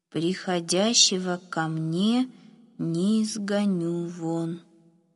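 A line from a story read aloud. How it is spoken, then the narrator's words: Slow reading. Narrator (Russian): медленно прочитал Ефим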